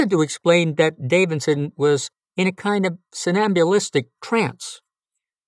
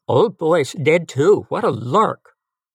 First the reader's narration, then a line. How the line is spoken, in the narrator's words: Davidson exclaimed